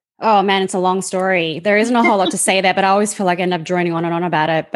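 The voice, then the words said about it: Australian accent. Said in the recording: “you have an amazing Australian accent”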